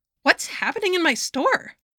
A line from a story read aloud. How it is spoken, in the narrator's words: He shrieked to his father and sister